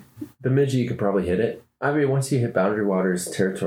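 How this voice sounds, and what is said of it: Usual voice. Nothing is said of it.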